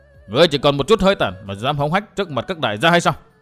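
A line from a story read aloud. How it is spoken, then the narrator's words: Harsh shout. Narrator (Vietnamese): hai tên nọ bỗng đổi ý, quát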